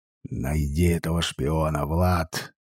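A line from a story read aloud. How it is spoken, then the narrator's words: Hoarse. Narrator (Russian): хрипло сказал он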